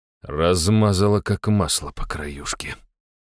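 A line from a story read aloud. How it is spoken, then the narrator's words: Muttering. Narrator (Russian): пробормотал я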